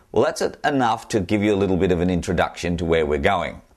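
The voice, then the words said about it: Australian accent. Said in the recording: “as you can tell from my accent, I'm an Australian.”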